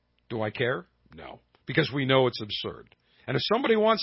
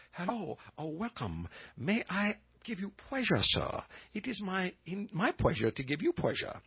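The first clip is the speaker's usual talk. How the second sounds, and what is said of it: Mock Asian accent impression. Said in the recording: “I did an impression of somebody that's Asian or Oriental”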